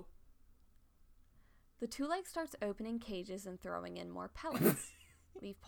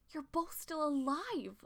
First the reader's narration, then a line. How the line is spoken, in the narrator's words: Leafpaw exclaimed